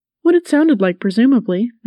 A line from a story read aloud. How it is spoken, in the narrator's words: Knight Grayson said, his voice full of amusement